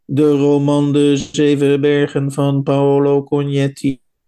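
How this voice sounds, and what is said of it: Flat, accentless computer-voice imitation. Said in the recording (Dutch): “Dan krijg je zo'n computerstem ... zonder enig accent”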